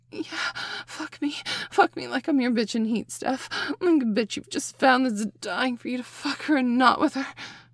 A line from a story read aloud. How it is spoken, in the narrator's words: I gasped as I felt my orgasm now building rapidly